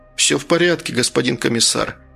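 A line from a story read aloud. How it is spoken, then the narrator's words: Sighing. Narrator (Russian): следователь вздохнул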